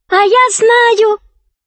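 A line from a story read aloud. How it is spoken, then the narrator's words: Girl shouting. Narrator (Russian): закричала девочка Рабен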